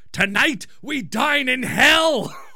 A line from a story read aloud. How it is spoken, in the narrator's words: the brother yells